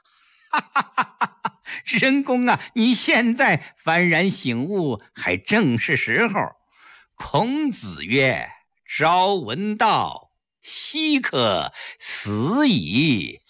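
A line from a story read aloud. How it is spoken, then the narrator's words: Hearty laughter. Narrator (Chinese): 柳亚子开怀大笑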